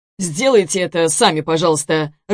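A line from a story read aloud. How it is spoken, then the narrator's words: Irritated courier. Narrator (Russian): раздраженно проговорил курьер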